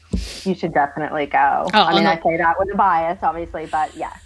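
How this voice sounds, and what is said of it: Noticeable foreign accent. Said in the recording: “as you can already tell from ... accent, you are a little bit away from home”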